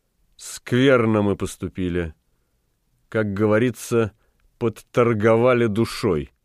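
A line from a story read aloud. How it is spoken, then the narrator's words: Sad. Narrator (Russian): Марта грустно произнесла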